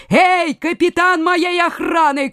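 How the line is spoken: Shout. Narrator (Russian): крикнул он

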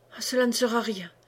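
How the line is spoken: Stammering. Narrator (French): balbutia

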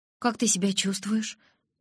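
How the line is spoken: Frightened question. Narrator (Russian): испуганно спросила Джессика

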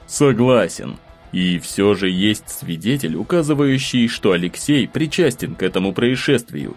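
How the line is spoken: Calm. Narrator (Russian): спокойно заметил Семен

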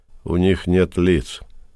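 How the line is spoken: Muttering. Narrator (Russian): Пробормотал

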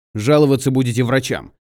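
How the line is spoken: Rude curt interruption. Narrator (Russian): грубо оборвал ее шериф

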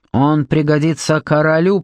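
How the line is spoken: Growled. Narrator (Russian): прорычал Луп

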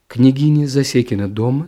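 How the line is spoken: Plain. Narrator (Russian): спросил я

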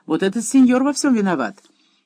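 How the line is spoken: Amazed, then laughing. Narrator (Russian): с изумлением переспросил, потом оживился и, смеясь, заявил

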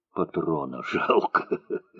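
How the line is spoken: Hoarse and quiet. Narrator (Russian): хрипло и негромко сказал

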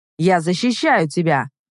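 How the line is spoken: Snapping. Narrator (Russian): огрызнулся он

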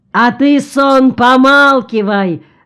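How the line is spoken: Enraged yell. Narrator (Russian): заорал рассвирепевший Ильмач

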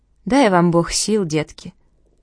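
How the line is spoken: Sad, smiling old woman. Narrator (Russian): Бабушка улыбалась, но как-то грустно, и почему-то все время говорила

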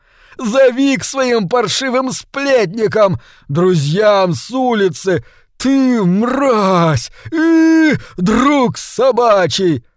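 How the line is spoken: Shrieking crowd. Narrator (Russian): визжали другие люди

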